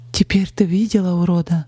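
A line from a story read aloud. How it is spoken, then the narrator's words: Shaky-voiced question. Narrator (Russian): дрогнувшим голосом спросила Полина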